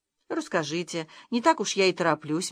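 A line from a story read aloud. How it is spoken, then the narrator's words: Soft admission. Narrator (Russian): мягко призналась Наташа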